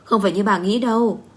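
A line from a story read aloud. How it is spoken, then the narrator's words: Angry. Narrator (Vietnamese): Vân Thư tức giận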